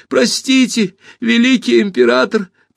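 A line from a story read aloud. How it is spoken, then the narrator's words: Squeaky voice. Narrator (Russian): пропищал мяч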